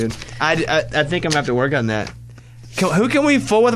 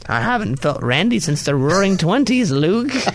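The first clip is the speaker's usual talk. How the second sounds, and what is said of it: Old lady voice impression. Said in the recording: “my old lady impression”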